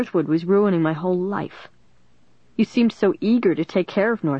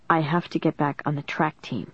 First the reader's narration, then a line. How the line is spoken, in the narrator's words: Dennis replied softly